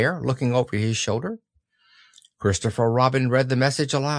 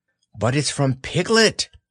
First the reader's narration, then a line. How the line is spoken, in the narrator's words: cried Christopher Robin